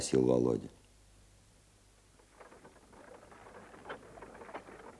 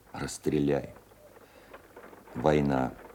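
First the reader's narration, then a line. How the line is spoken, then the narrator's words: Old veteran's voice. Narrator (Russian): стариковским голосом обстрелянного служаки ответил Володя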